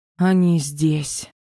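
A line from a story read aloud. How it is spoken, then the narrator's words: Breathless exhale. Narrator (Russian): выдохнула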